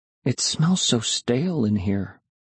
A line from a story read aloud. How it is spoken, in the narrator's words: I murmured